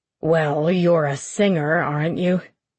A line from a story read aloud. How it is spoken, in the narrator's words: His voice was suddenly harsh